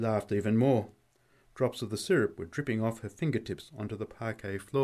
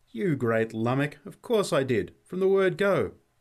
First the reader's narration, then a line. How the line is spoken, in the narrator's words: There was something of the old tone in her voice when she laughingly replied